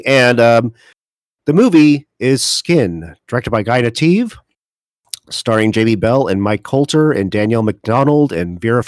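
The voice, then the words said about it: Hoarse, failing voice. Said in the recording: “I am now losing my voice”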